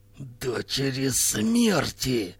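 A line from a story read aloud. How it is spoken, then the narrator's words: Hiss. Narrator (Russian): прошипела Сталан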